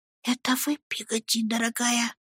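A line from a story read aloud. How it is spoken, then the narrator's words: Whisper through a keyhole. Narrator (Russian): прильнув губами к замочной скважине, прошептал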